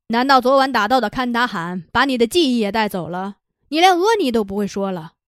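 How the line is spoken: Sarcastic tone. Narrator (Chinese): 他那讽刺的口吻

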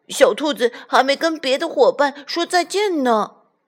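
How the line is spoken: Shouting. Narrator (Chinese): 他喊道

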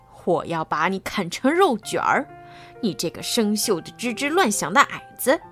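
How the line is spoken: Muffled voice through helmet. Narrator (Chinese): 邦姆波罗缪的声音从头盔的缝隙传了出来

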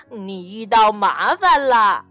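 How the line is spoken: Giggling. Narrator (Chinese): 刺猬咯咯地笑着说

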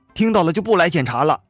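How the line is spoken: Angry. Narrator (Chinese): 幺哥怒道

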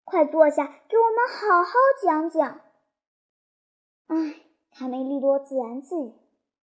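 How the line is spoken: Envious exclamation. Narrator (Chinese): 其他的小鸡羡慕地感叹

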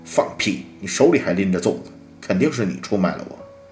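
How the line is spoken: Furious. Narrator (Chinese): 胡言暴怒

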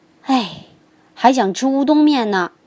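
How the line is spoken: Admiring exclamation. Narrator (Chinese): 小龙说完，不禁赞叹道

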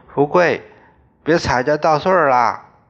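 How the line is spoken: Calling out. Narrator (Chinese): 他不时叫道

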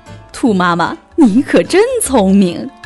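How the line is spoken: Laughing. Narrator (Chinese): 熊法官笑了

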